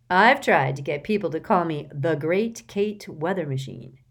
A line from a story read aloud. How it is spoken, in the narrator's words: she said